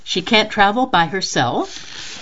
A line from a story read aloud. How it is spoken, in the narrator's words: Bruce laughed and seemed hesitant to gossip